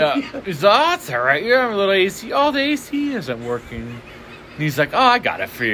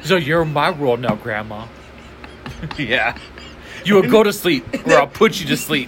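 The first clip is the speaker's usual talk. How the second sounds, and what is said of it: Imitates another person's voice. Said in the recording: “Ben Stiller's all ... You do the best impression”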